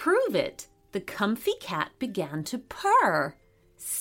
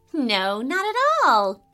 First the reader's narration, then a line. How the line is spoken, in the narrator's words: giggled Farah